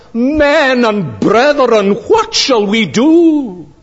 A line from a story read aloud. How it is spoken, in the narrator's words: they were cut to the heart, and they cried out